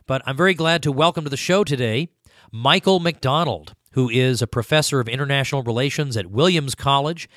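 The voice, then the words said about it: Hoarse, failing voice. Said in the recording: “I don't know if I have laryngitis or what it is, but my voice is somewhat failing me ... if I sound odd today, that's the reason”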